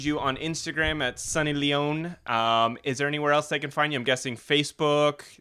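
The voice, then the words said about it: American accent. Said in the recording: “I love your American accent.”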